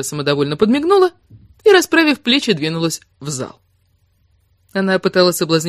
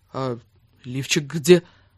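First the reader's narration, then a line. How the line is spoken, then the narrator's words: Mumbled. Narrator (Russian): пробормотал он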